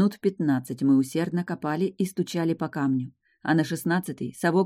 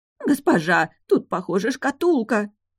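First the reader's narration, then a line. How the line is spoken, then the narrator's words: Nanny screaming hysterically. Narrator (Russian): закричала няня истерически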